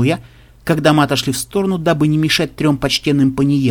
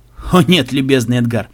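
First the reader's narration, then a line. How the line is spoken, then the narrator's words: Laughing. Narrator (Russian): смеялся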